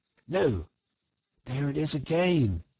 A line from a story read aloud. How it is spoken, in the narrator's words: he cried, alert once more